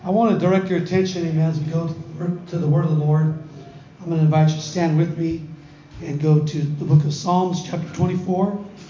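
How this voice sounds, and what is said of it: Strained, failing hoarse voice. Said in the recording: “you can already tell from my voice that I'm not going to last very long ... I've lost my voice”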